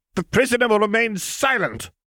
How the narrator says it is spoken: the Supreme Mugwump snapped

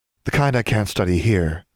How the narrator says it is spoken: Valeria replied

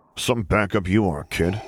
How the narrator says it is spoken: Solo growled

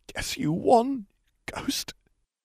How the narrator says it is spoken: she gasped

